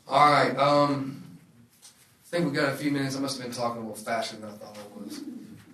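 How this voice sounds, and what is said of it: Non-local regional accent. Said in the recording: “I'm not from here, if you can't tell that, my accent.”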